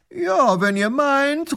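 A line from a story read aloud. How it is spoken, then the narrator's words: Flattered call back. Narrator (German): ruft der Großherzog geschmeichelt zurück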